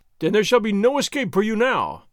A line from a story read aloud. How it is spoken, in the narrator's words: Captain Ramon cried